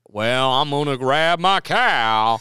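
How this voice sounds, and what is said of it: Exaggerated Texan American accent. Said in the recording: “do an American accent, one, it's a scope of things. It could be Boston, Texas, or New York.”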